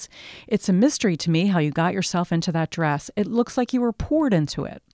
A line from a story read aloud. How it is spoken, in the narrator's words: Rudolph exclaims